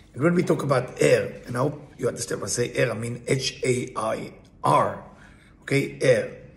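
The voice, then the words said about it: Accented English, hard to follow. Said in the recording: “My accent can be confusing.”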